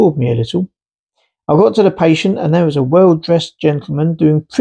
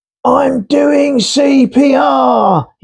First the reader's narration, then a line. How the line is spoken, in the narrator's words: he shouted